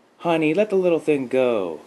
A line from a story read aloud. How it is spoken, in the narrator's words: called out Nikki's mom